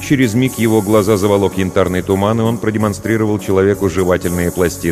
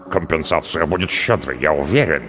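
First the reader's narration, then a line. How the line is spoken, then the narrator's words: Muttering. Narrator (Russian): пробормотал Хараль Мара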